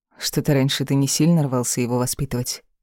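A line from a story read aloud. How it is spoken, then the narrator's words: Dry remark. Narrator (Russian): Сухо заметила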